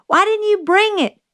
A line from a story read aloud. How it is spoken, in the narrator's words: Jim yelled